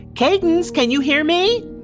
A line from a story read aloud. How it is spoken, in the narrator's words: I yell back